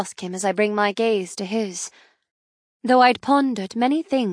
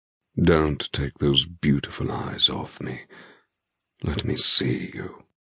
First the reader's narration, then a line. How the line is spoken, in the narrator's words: he murmurs